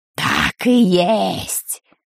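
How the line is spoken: Creaky voice. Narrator (Russian): проскрипела чума Дель Торт

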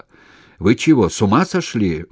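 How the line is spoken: Shouted. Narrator (Russian): крикнул управдом

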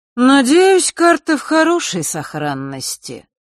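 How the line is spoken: Lazy continuation. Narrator (Russian): лениво продолжил Нортон-старший

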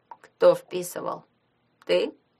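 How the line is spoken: Very calm question. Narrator (Russian): очень спокойно спросил Шурасик

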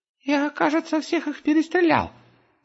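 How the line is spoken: Proud squeak. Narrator (Russian): горделиво пискнул Густав

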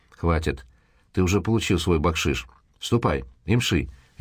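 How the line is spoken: Sharp curt retort. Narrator (Russian): резко бросил Дэниел

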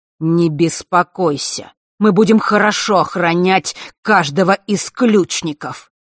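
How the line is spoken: Near growl. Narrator (Russian): Чуть ли не прорычал в ответ Нортон-старший

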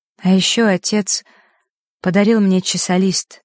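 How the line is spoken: Crushed voice, young girl. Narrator (Russian): убитым голосом произнесла девочка

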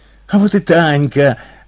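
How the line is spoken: Joyful shouting behind door. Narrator (Russian): радостно заголосили под дверью

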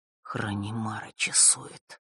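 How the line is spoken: Barely audible. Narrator (Russian): едва слышно произнес

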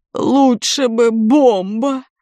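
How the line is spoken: Moan. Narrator (Russian): простонал Герман Никитич

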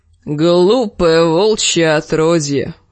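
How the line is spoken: Creaky voice. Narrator (Russian): проскрипел он

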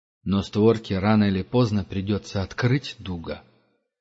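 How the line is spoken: Grim speech. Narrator (Russian): мрачно проговорил Герман

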